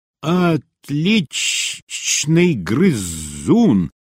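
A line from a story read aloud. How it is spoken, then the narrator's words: Hissing. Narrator (Russian): прошипела Глайд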